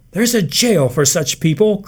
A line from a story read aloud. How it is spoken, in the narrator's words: cried Martha Kahn